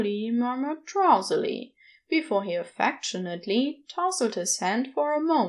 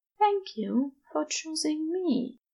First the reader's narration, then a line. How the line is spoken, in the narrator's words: Aziraphale whispered right before they fell asleep